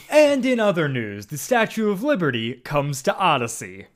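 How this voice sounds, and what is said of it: Imitates a newscaster character's voice. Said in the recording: “that's my one impression”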